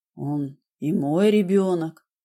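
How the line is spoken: Quiet reply. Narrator (Russian): тихо ответил он

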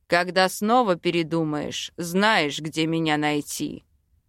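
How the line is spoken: Chuckling. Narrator (Russian): хохотнул

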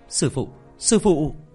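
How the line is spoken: Very excited call. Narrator (Vietnamese): Diệp Thiếu Dương lập tức vô cùng phấn khởi

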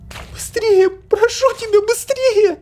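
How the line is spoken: Crying shout. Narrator (Russian): закричала она и заплакала

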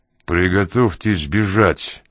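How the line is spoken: Muttered from mouth corner. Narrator (Russian): процедил уголком рта

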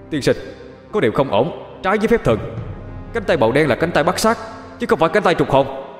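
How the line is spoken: Loud yelling. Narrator (Vietnamese): Quỷ liền hét lớn lên

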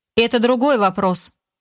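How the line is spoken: Dry. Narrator (Russian): сухо ответил Олег

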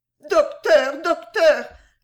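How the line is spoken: Whimpering child. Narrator (French): gémit la petite imprudente

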